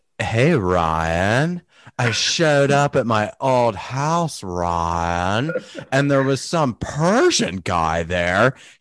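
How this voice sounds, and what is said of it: Imitates another person's voice. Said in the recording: “I'll try and do her voice.”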